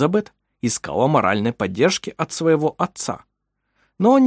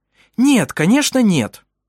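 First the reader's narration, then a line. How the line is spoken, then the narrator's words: Irritated. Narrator (Russian): раздраженно ответила Тура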